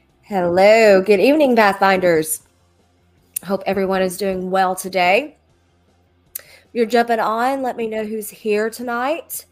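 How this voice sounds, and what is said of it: Nasal, congested voice. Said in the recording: “I have a little bit of a cold. ... it's just been driving my sinuses kind of crazy. So I'm a little nasally tonight”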